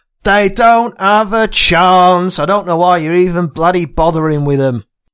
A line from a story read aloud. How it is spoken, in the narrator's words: One of the male prison officers shouts over